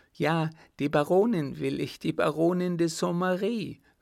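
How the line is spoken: Madman calling out. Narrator (German): rief der Irre

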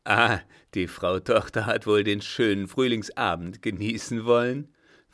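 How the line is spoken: Asked with ugly laugh. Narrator (German): fragte mit einem hässlichen Lachen

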